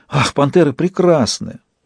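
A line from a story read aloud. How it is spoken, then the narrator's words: Delighted breathy girl. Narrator (Russian): восторженно выдохнула девушка впереди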